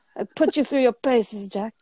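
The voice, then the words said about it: Bad imitation of another person's voice. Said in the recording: “very, very bad James Mason impression”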